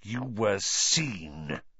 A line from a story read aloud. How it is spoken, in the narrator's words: he hissed